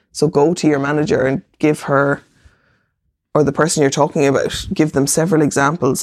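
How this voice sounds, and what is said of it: Croaky voice. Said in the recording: “My voice is getting kind of croaky”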